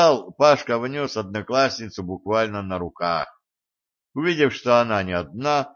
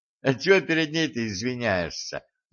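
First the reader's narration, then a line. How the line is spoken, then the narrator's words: Laughing. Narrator (Russian): засмеялась Одинцова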